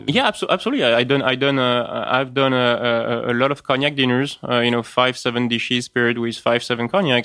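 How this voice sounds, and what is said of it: French accent. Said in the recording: “That's my French accent kicking in. ... As if the previous half hour wasn't also kicked in.”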